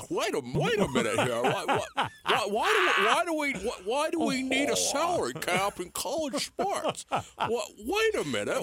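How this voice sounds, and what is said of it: Imitates another person's voice. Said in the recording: “why does it become Jimmy Stewart? ... This is an underrated impersonation”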